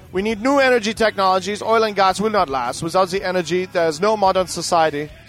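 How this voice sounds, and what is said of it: Put-on foreign accent. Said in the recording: “You like that accent? That was good, eh?”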